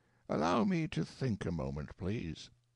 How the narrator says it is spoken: said calmly

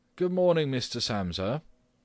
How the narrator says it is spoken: the manager called out in a friendly way

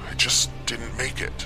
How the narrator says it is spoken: mumbled again

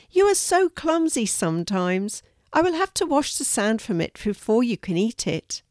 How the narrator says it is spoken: laughed Fiona

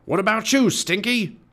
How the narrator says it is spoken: Cap'n Bones roared

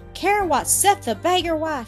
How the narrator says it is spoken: she exclaimed

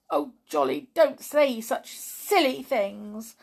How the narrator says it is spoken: cried Tiptoe crossly

